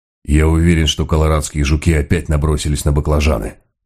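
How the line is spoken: Grumbling. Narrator (Russian): проворчал он

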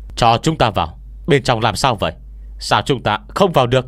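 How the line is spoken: Guards shouting loudly. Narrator (Vietnamese): đám hộ vệ bên ngoài cửa lớn tiếng hô

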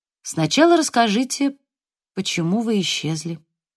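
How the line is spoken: Sighing. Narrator (Russian): Джейн вздохнула

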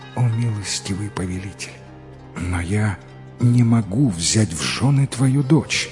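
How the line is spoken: Barely audible young man. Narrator (Russian): юный раджа еле слышно произнес

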